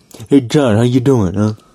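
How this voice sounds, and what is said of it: Attempted Italian-American accent. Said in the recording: “I can't do an Italian accent. ... It's not too bad.”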